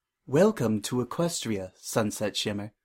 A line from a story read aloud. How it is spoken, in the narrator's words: she said